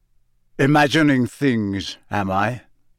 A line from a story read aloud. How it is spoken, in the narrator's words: growled Moody